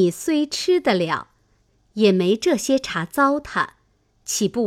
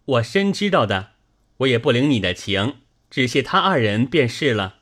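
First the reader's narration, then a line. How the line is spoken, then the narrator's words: Laughing. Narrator (Chinese): 宝玉笑道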